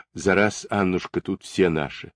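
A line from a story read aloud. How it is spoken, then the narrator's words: Stern reply. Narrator (Russian): строго ответила Полина Марковна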